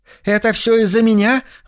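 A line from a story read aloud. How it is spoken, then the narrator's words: Exclaiming. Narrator (Russian): воскликнула Шай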